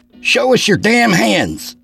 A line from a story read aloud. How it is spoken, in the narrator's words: Arnold hollered over the music